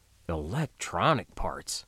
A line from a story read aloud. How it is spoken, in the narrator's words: Sergeant Sarnoff muttered dubiously